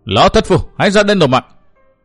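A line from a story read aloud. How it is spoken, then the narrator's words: Roaring shout. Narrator (Vietnamese): Văn Thiên Hào gầm thét một tiếng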